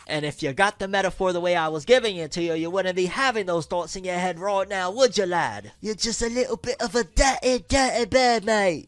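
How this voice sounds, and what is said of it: Put-on accent. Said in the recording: “Maybe it's the hat that's making me throw the accent out”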